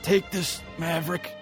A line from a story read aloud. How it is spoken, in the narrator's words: Iceman pleads